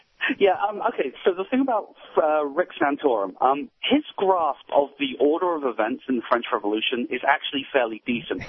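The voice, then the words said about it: Detroit accent. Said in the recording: “God, I love that Detroit accent. I really do. ... so Motown.”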